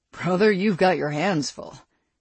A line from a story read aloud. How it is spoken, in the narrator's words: he chuckled